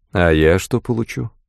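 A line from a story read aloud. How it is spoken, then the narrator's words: Dry question. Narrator (Russian): Сухо спросил Язон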